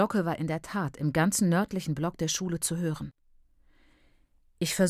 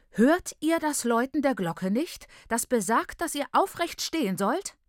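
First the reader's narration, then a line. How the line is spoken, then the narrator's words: Prophetic scream, bell-ringer woman. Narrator (German): Die Glöcknerin stand in der Tür wie die Überbringerin einer schrecklichen, machtvollen Prophezeiung und schrie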